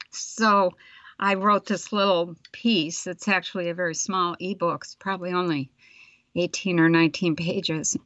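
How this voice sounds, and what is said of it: Strained, fading voice. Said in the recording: “I'm losing my voice here”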